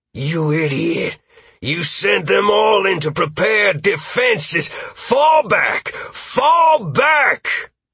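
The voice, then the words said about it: Hoarse bellowing character voice. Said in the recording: “Graves's hoarse voice bellow”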